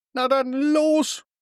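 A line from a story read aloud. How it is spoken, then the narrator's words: Called out. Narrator (German): ruft Kling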